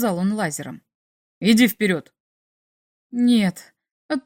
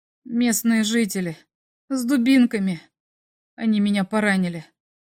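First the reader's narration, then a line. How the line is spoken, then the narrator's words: Mumble. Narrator (Russian): промямлил я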